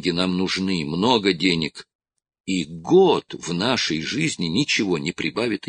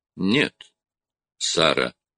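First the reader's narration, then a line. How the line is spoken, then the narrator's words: Cold reply. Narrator (Russian): холодно ответил Роб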